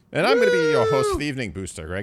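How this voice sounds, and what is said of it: Funny put-on accent. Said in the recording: “speaking in a funny accent”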